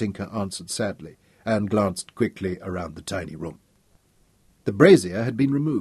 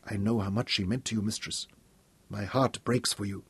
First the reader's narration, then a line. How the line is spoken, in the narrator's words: Sukina whispered